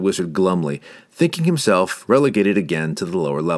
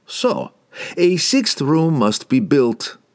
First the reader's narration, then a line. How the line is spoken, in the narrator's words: laughed Pook, enjoying his little game